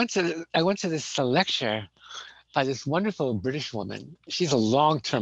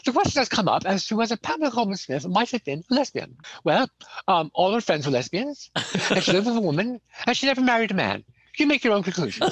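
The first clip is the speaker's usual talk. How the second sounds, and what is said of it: Imitated posh British accent. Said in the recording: “this great character type in England, which is posh, aristocratic ... I'm going to try to imitate the accent. I'm going to do a terrible job”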